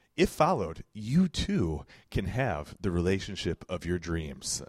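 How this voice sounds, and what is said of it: Announcer-style radio voice. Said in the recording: “Occasionally, I can use the whole radio voice.”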